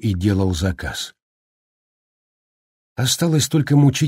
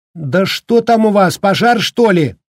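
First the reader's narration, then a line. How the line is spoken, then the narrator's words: Shouted after someone. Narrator (Russian): выкрикнула она вслед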